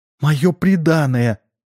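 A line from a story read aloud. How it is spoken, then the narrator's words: Sobbing princess. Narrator (Russian): объяснила, всхлипывая, царевна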